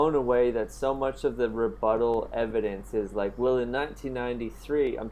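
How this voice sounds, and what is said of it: Usual voice. Nothing is said of it.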